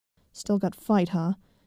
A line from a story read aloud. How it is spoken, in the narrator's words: growled